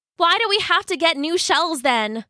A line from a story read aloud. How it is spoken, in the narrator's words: cried Jasper in a very frustrated voice